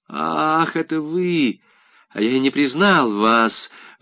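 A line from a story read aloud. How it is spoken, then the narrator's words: Weak, dying voice. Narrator (Russian): отвечал он слабым и умирающим голосом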